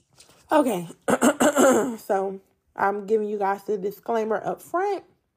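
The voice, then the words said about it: Crackling, fading hoarse voice. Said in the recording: “y'all have to excuse my voice ... my voice is crackling and all of a sudden going out”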